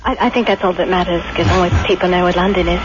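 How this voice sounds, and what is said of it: English accent. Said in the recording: “English accent? ... Yes, indeed.”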